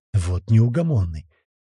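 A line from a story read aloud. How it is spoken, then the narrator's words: Grumbling. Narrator (Russian): проворчал Володя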